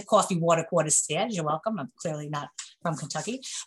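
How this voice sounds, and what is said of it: New York accent. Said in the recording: “I'm from New York, as you can tell from my accent ... you can always tell from my accent, always gives me away”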